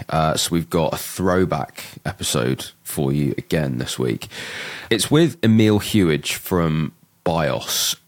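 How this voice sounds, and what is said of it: Sick, under-the-weather voice. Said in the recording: “You can tell from my voice, feeling a little bit under the weather today.”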